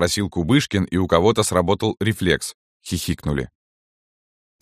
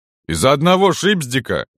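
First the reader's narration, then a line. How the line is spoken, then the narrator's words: Loud. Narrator (Russian): громко сказал Роман Водовозов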